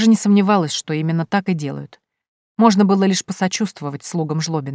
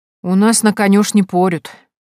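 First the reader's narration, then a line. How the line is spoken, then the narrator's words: Sighing. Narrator (Russian): вздохнула Минадора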